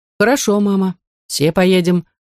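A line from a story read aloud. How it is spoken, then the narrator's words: Plain, aunt speaking. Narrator (Russian): сказала тетушка Зелиха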